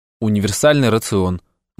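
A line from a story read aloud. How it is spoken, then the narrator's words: Gloomy. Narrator (Russian): мрачно сказал я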